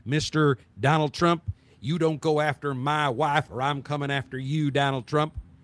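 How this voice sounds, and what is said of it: Imitated voice with Texan accent. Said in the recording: “best Ted Cruz impression I can make ... it sounds like he's from Texas ... not the greatest, but close enough”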